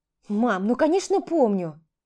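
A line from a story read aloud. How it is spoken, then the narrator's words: Impatient exclamation. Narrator (Russian): Нетерпеливо воскликнул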